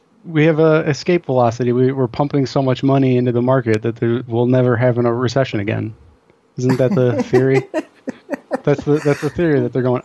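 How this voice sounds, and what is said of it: Sarcastic tone. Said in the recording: “I'm being sarcastic, obviously.”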